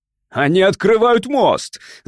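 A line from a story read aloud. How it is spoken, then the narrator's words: Shouting. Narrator (Russian): закричал он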